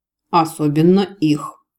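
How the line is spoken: Snort. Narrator (Russian): фыркнул мэтр

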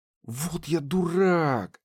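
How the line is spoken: Exasperated exhale. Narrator (Russian): выдохнул Кир

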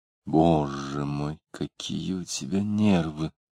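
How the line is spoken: Quiet. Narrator (Russian): тихо сказала Варвара

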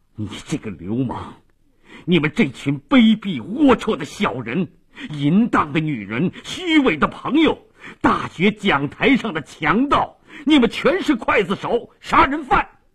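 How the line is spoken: Shocked furious shouting. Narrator (Chinese): 马利奇极其震惊，怒不可遏地大声地叫道

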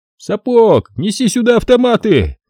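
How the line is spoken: Shouted. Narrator (Russian): крикнул Хасан

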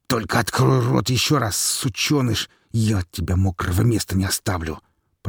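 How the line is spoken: Platoon commander hissing through teeth. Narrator (Russian): процедил сквозь зубы комзвод

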